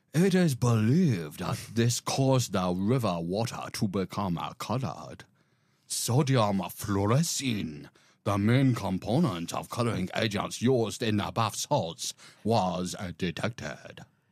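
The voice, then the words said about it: Put-on Japanese-style sci-fi character accent. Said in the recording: “I'm going for ambassador of the Galactic Trade Federation... Star Wars Episode 2, Attack of the Clones... as close as I can get to a Japanese accent... just a hint of Jar Jar Binks”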